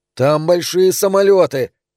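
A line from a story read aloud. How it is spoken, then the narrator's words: Shouting. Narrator (Russian): кричал Дэви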